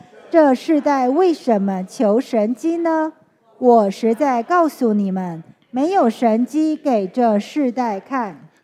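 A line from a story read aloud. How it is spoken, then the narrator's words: Deep sigh. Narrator (Chinese): 耶稣心里深深的叹息，说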